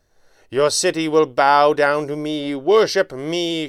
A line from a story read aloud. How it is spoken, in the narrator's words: Shaw shouted, his voice ringing in hoarse echoes cast from unseen walls